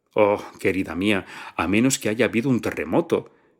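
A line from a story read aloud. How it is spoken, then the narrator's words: Triumphant tone. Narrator (Spanish): dijo la invitada con tono triunfal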